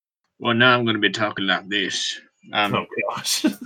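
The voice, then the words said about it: Put-on farmer or cowboy accent. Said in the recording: “I've shifted into a farmer ... or a cowboy ... It apparently changed his accent. Yep, now I'm a farmer ... or a cowboy”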